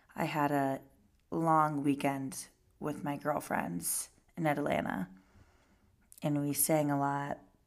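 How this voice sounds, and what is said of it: Raspy, hoarse voice. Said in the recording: “don't mind my raspy voice. My voice is always raspy, but today it's more raspy than normal ... my voice is not 100% recovered yet”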